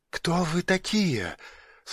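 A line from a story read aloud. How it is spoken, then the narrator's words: Whispered question. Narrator (Russian): шепотом спросила она у него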